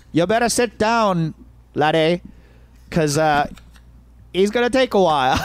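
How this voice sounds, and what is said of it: Poor attempt at Irish accent. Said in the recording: “I'm going to fuck up this Irish accent ... Why is that your accent? ... Did I go Scottish? ... Nothing in the UK region ... you went Ewok”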